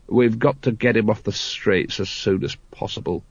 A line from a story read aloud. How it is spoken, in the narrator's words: he muttered